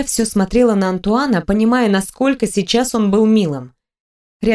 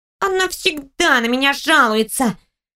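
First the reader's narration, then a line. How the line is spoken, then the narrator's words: Annoyed girl grumbling. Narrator (Russian): проворчала раздосадованная девочка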